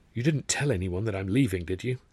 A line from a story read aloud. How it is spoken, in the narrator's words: I whispered